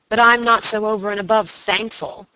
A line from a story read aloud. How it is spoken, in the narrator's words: answered her lover savagely